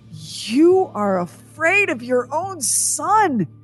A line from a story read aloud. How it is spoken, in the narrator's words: she cried, struggling